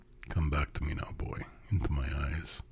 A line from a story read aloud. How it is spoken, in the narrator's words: he said in a soft, deep voice